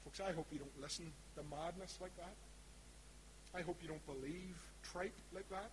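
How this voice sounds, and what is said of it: East Belfast Northern Irish accent. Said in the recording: “my East Belfast accent”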